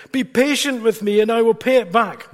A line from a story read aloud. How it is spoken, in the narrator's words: His fellow servant fell to his knees and begged him